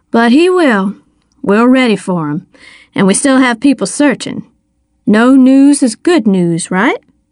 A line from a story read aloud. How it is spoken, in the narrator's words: said calmly